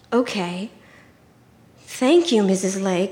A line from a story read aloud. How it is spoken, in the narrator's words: I breathed